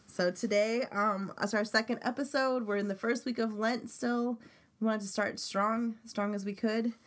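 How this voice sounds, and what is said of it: Sniffly, congested voice. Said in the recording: “You'll hear it in my voice. ... I'm a little sniffly today”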